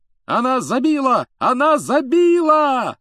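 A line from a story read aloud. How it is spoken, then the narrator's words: Excited yelling. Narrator (Russian): завопил Джордан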